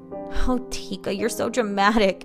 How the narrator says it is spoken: her mother chuckled lightly

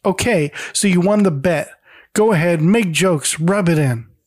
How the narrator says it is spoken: tries to hold it in as long as she can, but finally yells

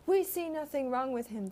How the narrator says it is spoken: they shouted

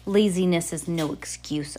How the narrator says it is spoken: Olaf growled

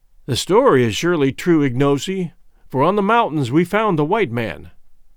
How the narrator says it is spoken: I said

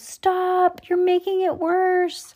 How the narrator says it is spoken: Lucy screamed

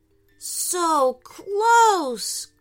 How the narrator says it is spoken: groaned Aiden

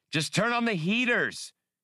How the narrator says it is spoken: yelled Hasty

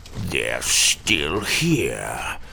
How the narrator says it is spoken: Tim quietly croaked

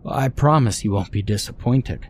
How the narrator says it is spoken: said Martin

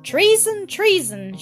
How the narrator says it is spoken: shouted the Speaker of the House

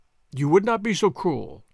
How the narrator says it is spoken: said

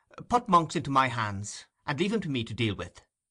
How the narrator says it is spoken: said the gentleman quickly

